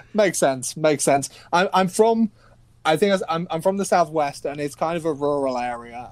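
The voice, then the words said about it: English accent. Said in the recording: “What does my accent sound like to you guys? ... You sound like you're from England.”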